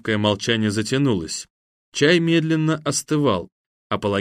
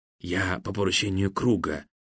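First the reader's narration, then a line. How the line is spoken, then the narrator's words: Quiet, after a cough. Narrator (Russian): кашлянув тихо проговорил Фокс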